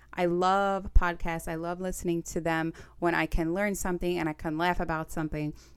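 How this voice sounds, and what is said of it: Staten Island New York accent. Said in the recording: “I'm from Staten Island, New York. Get used to the accent. ... If I get riled up about something, it's most likely going to come out even more.”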